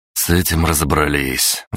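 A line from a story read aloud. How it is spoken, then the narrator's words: Sigh. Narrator (Russian): вздохнул я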